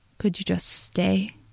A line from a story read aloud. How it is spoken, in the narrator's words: he asked, very quietly